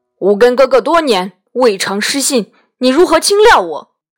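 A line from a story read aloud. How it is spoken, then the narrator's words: Angry. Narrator (Chinese): 妃怒曰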